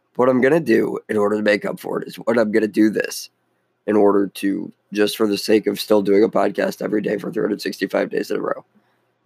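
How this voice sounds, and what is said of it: Hoarse, nearly lost voice. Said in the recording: “My voice is practically gone”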